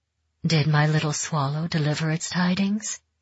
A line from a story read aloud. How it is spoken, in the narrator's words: she asked softly